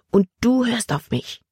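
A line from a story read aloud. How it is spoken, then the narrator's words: Angry whisper. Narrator (German): flüsterte sie ärgerlich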